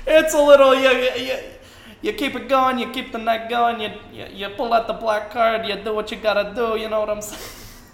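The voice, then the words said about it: Put-on Italian-American stockbroker accent. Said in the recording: “You slowly just developed an accent there ... Slowly becoming like a Italian stockbroker”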